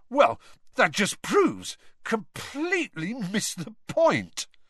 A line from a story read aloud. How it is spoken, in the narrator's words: he spluttered, looking thunderstruck